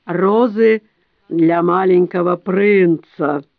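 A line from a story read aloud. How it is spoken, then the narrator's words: Solemn low smoky voice. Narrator (Russian): торжественно произнесла низким прокуренным голосом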